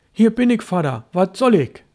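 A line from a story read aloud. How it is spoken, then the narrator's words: Called out. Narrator (German): rief Störtebeker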